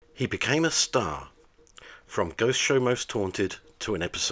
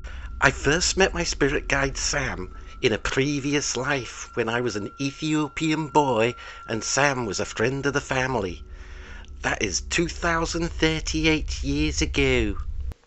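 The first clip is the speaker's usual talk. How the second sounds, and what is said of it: Put-on Liverpool Scouse accent. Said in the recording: “I will use an authentic Liverpool accent ... my accent is so authentic”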